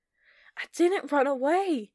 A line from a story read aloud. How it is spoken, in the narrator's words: Heather shouted